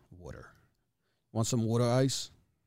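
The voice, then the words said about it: Put-on Philadelphia accent. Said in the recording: “Philadelphia, you change the A to two O's, water ... Philly accent's gross ... Sounds like a trash can talking ... Philly accent”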